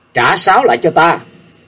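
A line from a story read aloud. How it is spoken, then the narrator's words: Raised calling voice. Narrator (Vietnamese): Nhạc Chiêu Dương cao giọng gọi giới về phía Diệp Linh Tô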